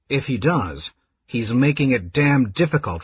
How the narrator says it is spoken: Raistlin remarked coldly

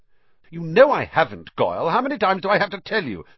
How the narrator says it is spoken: snapped Malfoy

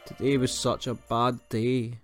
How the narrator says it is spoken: sobbed Chloe, burying her face in Peggy's fur

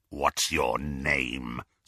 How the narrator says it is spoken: snarled Greyback

